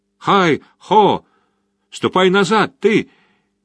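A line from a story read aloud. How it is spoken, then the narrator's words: Shouting after him. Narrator (Russian): кричал ему вслед Чихан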